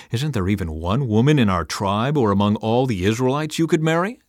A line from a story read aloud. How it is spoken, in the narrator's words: they asked